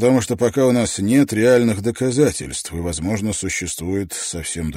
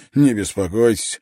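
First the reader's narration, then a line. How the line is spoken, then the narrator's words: Laughing. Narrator (Russian): рассмеялся Давенпорт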